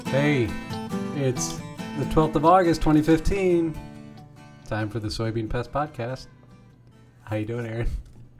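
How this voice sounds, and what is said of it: Switches into a radio announcer voice. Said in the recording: “Did my voice just go different when we come live? It becomes like a radio voice ... you do have a radio voice”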